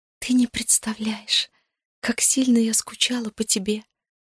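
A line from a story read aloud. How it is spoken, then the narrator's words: Choked-up whisper. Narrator (Russian): прошептала, пытаясь проглотить ком в горле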